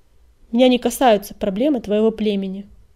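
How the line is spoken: Cold, curt. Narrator (Russian): холодно отрезал он

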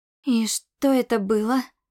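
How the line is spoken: Breathed out. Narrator (Russian): выдохнула

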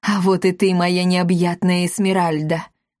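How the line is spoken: Exclaimed rapturously. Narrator (Russian): восторженно воскликнул Алеут

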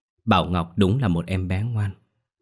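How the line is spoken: Gentle, kindly smiling. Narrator (Vietnamese): Bà nó nở nụ cười hiền từ, dịu dàng nói

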